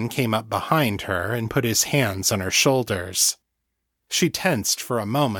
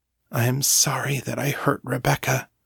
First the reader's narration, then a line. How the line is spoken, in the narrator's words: she said, her voice barely above a whisper